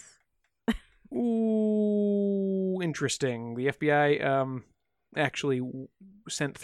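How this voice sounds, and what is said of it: Usual voice. Nothing is said of it.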